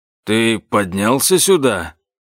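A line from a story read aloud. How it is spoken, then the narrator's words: Grumbling old man. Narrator (Russian): проворчал дед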